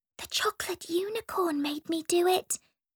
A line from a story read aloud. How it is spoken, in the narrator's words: whispered Olive